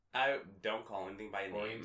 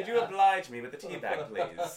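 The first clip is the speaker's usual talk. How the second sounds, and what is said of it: Put-on British accent. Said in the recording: “It with a British accent.”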